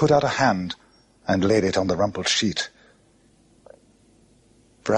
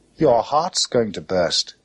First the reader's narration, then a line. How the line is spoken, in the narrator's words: he said